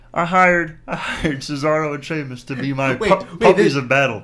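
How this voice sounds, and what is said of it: Awful imitation of another person's voice. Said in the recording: “my awful Big Show impression. ... He sounds like John C. Reilly.”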